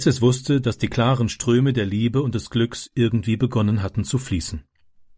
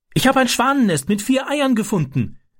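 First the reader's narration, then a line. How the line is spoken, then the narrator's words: Calling out. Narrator (German): rief er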